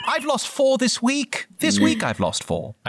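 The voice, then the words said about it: Imperial officer character voice. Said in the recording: “I'm still in my Imperial officer voice”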